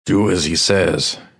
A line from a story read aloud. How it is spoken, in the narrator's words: hisses